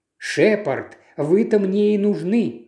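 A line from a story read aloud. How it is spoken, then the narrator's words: Exclaimed. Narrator (Russian): воскликнул он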